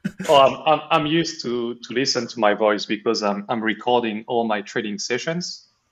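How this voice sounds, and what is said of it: French accent. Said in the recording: “your accent, that's French, right? ... Absolutely.”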